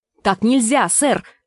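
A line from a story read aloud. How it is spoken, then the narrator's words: Exclaiming. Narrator (Russian): воскликнул Думинг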